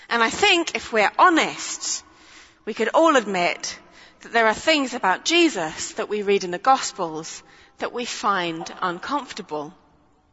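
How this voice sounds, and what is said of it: Noticeable accent. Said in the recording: “my accent is getting in the way”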